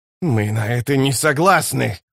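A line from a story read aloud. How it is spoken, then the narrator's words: Hissed. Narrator (Russian): прошипел Рад престол тени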